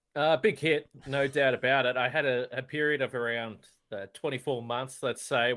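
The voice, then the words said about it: Australian accent. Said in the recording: “your accent ... with another Aussie in there ... that just sounds like Joe”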